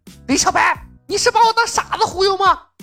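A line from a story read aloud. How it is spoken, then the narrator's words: Angry, through gritted teeth. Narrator (Chinese): 木星愣住，他怒视李牧，咬牙道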